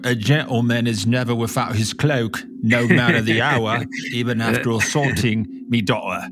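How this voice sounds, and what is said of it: Upper-class Victorian English accent. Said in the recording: “Perfect upper class Victorian accent there. That's so upper class. That's perfect”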